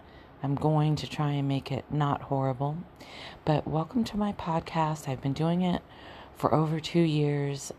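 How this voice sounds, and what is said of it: Rough, not-yet-warmed-up voice. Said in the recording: “I haven't used my vocal cords in, I don't know, 12 hours ... my voice is not prime”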